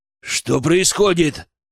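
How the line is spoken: Growling. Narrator (Russian): зарычал Глебов

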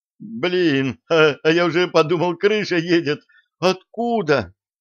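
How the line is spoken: Shouted, trembling voice. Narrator (Russian): выкрикнул неожиданно задрожавшим голосом

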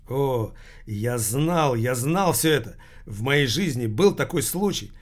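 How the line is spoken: Exclaim. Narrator (Russian): воскликнул Томмазо Кампанелло

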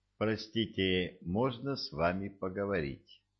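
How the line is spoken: As loud as possible. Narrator (Russian): Эту фразу я произнес по драконе самым громким голосом, на какой только был способен

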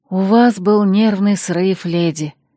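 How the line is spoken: Weary, smiling. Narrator (Russian): устало улыбнулась Ирма

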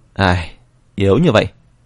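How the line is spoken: Sighing, resigned speech. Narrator (Vietnamese): Vân Phi Dương thở dài, lắc đầu nói

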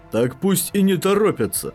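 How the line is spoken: Exclaiming. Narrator (Russian): воскликнул Пентассиан

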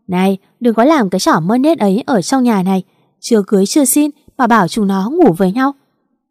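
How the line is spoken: Loud booming. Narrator (Vietnamese): tiếng mẹ chồng tôi oang oang

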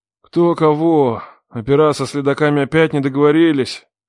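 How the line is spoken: Lazy reply. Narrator (Russian): лениво ответил

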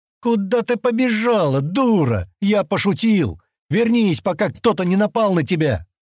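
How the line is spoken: Shouted. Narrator (Russian): крикнул он

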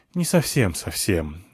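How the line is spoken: Sigh. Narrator (Russian): вздохнул я

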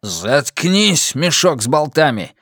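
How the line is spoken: Barked. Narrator (Russian): рявкнул Слайтман

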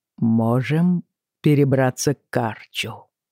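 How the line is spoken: Slow. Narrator (Russian): медленно сказал он

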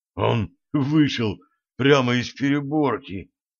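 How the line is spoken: Hoarse whisper. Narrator (Russian): хрипло прошептал Джим

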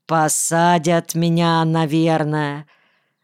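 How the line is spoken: Deliberately calm, craving pity. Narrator (Russian): сказал я намеренно спокойно, испытывая смутную гордость и острую, почти болезненную потребность в жалости, нежной женской жалости

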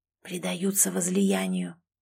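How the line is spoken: Whispered report. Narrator (Russian): сообщил шепотом Сэм

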